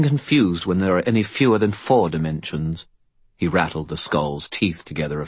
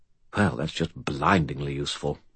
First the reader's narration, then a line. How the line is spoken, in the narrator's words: Bob muttered